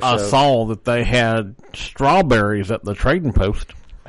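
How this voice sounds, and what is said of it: Put-on cowboy accent. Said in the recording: “Now we'll have to listen to this accent for 10 minutes.”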